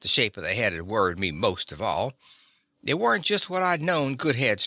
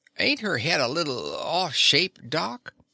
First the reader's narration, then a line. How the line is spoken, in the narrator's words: stammered out